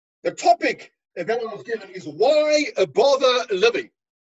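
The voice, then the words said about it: Put-on British accent. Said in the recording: “How's my British accent?”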